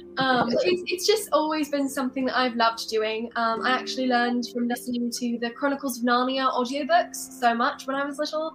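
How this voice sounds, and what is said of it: Put-on British accent. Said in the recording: “where in England I was from ... I was in a British accent.”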